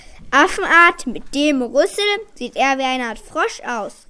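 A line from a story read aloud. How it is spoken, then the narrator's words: Man interrupting loudly. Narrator (German): rief ein anderer Mann dazwischen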